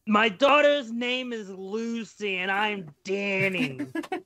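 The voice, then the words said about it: Imitates another person's voice. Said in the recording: “that's the best Danny DeVito impression I'm gonna get.”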